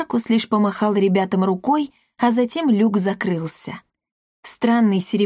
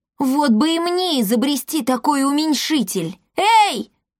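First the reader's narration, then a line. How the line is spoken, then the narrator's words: Shout. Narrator (Russian): крикнул он Брюсу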